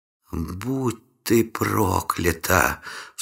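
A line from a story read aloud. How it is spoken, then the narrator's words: Gleeful whisper. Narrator (Russian): с наслаждением прошептала наемница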